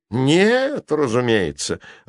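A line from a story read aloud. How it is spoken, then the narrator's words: Irritated reply. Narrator (Russian): раздраженно ответил Кверти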